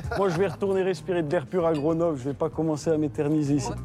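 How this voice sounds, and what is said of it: Very particular accent and phrasing. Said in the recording (French): “votre diction est sur toutes les lèvres ... ce débit et cette façon de parler. Cet accent, ce phrasé très particulier ... Votre accent si particulier ... toutes les hypothèses sur son origine, suisse, ch'ti ou même belge”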